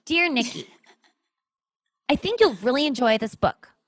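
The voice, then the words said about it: Impression of a friend's voice. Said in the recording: “I'll do it my Noah impression.”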